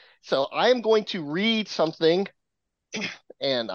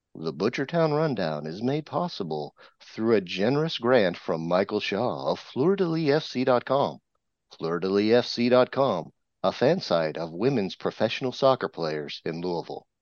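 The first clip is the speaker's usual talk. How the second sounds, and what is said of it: Public radio announcer voice. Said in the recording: “I'm going to make sure that I've got my best NPR voice.”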